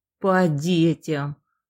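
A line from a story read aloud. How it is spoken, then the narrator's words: Man's heavy sigh. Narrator (Russian): мужик тяжело вздохнул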